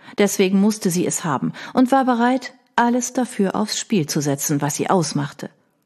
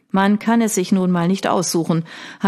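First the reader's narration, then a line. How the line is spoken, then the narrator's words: Dry reply. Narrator (German): hatte dieser nur trocken erwidert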